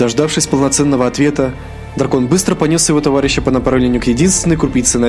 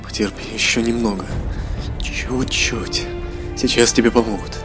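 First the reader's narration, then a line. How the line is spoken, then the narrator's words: Hopeful whisper. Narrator (Russian): наш чешуйчатый герой с надеждой прошептал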